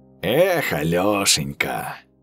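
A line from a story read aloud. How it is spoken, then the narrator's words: Sigh. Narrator (Russian): вздохнул Матвеич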